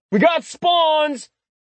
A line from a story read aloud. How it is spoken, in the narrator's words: A human's shout echoed through the underground chamber